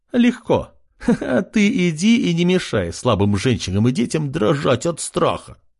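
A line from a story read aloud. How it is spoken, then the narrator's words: Laughing. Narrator (Russian): хохотнула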